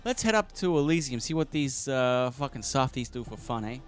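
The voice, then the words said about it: Put-on New York accent. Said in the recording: “I like this New York gang of piranhas. ... 90% of my US accents are New York.”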